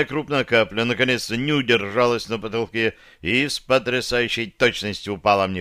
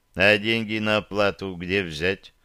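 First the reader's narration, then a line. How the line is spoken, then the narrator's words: Gloomy wincing question. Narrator (Russian): мрачно спросил я, морщась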